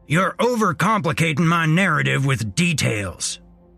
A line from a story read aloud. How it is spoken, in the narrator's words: Earl snapped